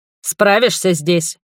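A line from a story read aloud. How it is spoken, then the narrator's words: Shouted. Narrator (Russian): крикнул он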